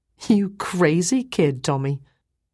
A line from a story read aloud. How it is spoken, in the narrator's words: I laughed too and said